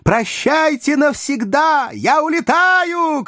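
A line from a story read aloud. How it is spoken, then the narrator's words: Shouting over music. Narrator (Russian): кричала Маргарита, заглушая вальс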